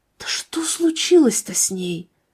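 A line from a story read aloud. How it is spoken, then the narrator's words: Whispering among themselves. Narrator (Russian): шептались между собой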